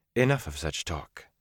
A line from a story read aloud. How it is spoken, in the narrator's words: Moraine said firmly